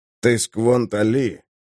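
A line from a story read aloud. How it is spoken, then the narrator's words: Quiet voice. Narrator (Russian): сказал он тихим голосом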